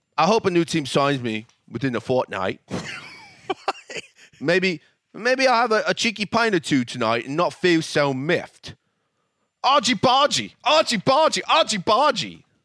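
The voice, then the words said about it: Very bad put-on British accent. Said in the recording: “that's probably the worst British accent I've ever heard.”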